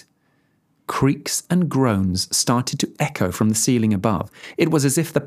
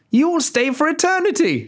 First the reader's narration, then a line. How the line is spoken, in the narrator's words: She cried